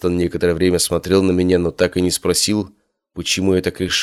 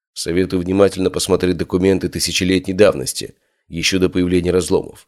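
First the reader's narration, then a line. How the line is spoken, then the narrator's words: Plain. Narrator (Russian): сказал я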